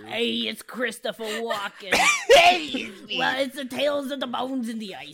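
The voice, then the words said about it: Imitates another person's voice. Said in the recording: “doing an impersonation of Christopher Walken”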